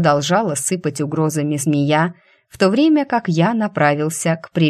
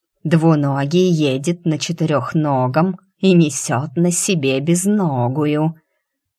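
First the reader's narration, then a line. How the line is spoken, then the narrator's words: Snide snake hiss. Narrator (Russian): ехидно прошипела змея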